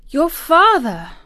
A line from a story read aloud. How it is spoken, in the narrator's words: gasped Mary